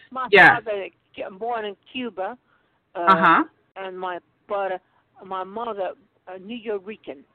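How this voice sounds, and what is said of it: Brooklyn New York accent. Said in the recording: “that's the accent that's coming through ... I have a Brooklyn accent, a New York accent”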